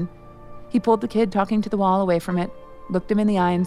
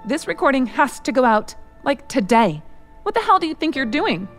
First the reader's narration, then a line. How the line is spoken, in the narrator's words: Heather shrieked